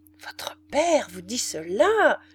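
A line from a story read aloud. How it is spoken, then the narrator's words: Tall woman's quickly suppressed outburst. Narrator (French): s'écria la grande femme avec un accent qu'elle réprima aussitôt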